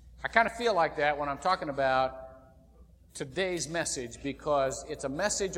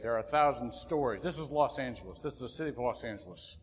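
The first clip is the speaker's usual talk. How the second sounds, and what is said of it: Serious TV announcer voice. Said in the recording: “There'd come this real serious voice over the television and say”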